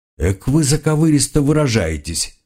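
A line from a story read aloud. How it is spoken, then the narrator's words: Wry hmph. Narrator (Russian): хмыкнул Карл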